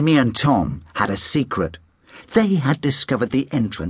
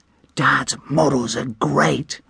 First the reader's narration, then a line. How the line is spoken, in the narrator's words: whispered Jamie